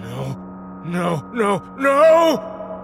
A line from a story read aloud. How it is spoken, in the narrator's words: Peterson wailed